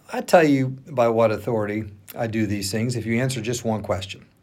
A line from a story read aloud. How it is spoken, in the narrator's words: Jesus replied